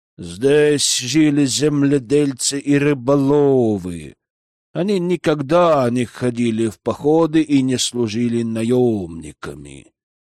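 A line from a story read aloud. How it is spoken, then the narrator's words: Drawling. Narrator (Russian): протянул Микке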